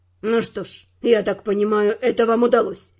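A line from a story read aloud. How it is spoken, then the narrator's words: Wry snort. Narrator (Russian): хмыкнул агент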